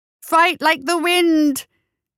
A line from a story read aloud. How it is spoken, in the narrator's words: He shouted